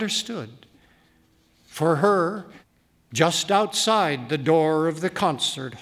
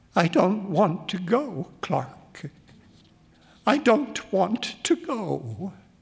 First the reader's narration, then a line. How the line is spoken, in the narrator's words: She burst into tears and sobbed pleadingly